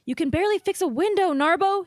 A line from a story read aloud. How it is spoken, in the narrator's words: said sharply